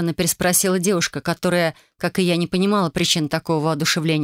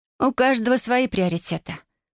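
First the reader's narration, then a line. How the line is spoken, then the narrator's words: Snorted. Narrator (Russian): хмыкнула я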